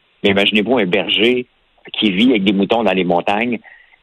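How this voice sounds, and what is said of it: Strong Québécois French accent. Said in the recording (French): “mon accent québécois tranché”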